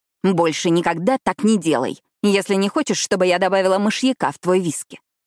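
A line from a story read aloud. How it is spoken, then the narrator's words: Growl. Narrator (Russian): прорычала я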